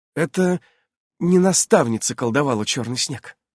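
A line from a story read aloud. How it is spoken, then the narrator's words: Quiet. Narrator (Russian): тихо произнесла Ульянка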